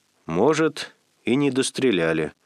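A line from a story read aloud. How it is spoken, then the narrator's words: Calm. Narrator (Russian): спокойно сказал он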